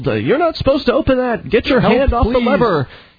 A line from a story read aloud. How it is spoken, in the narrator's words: one of the stewardesses yelled